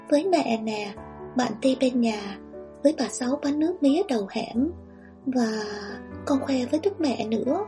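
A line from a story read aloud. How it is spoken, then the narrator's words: Child chattering. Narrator (Vietnamese): Thằng bé ríu rít kể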